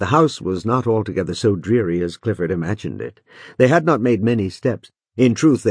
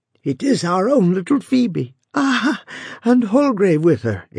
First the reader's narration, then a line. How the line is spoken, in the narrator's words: exclaimed he, with a smile, beautiful, kind, but melancholy